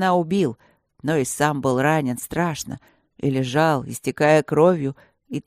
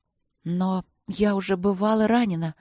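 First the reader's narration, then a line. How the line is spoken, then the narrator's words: Uncertain, drowsy. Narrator (Russian): проговорила я неуверенно, еле разлепив глаза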